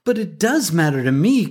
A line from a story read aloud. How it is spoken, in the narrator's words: cried Crickett